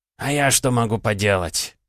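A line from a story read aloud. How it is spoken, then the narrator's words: Sighing. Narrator (Russian): вздохнул Архаров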